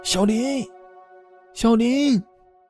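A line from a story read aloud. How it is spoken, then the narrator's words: Man shouting. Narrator (Chinese): 那男人口中还喊着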